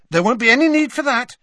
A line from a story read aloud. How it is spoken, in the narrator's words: said Harry hastily